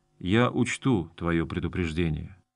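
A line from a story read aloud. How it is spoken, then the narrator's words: Quiet. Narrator (Russian): Гарон тихо произнес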